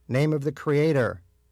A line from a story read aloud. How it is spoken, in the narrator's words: Rabbi Breyer shouted